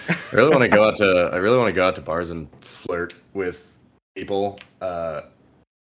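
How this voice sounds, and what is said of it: Usual voice. Nothing is said of it.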